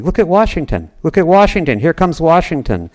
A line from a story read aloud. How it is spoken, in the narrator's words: someone else called out much more urgently